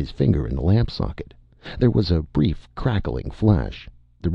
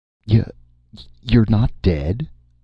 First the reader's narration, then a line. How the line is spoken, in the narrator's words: Martin inquired shakily